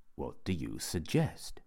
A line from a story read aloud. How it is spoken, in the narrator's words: said Raymond, quietly